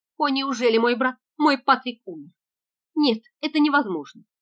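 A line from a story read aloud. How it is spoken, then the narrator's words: Sobbing broken exclamation. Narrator (Russian): молодая девушка зарыдала и воскликнула разбитым голосом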